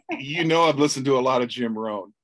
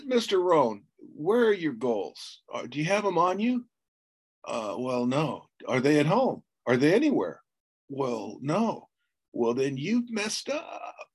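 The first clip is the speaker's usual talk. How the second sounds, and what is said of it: Impression of Jim Rohn's inflection. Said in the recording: “his inflection ... You do such a great impersonation.”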